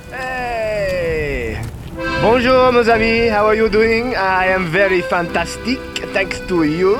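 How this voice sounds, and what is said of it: Put-on French accent. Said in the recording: “Maybe I am from France. Excuse me for my bizarre accent.”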